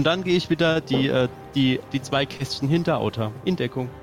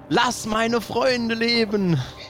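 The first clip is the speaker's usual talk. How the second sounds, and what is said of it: Shouted line in fantasy elf dialect. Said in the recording (German): “in Drow-Sprache entgegenschmettern ... elvischem Drow-Dialekt”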